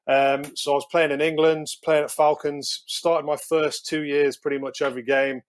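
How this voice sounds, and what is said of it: English accent. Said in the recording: “an English accent”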